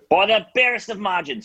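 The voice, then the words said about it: Terrible imitation of another person's voice. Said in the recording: “my terrible Ian Smith impression”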